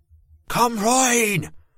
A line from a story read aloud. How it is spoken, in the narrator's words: the woman shouted over my scream